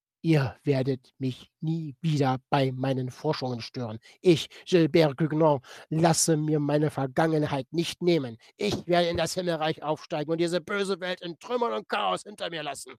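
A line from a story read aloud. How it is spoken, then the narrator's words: Cruel scream. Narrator (German): schrie er mit grausam verzerrtem Gesicht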